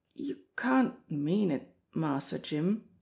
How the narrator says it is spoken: he faltered

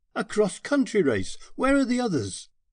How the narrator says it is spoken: Here was true energy, and I exclaimed

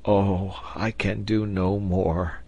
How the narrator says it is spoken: he murmured

